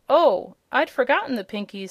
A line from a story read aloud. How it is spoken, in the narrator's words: exclaimed the girl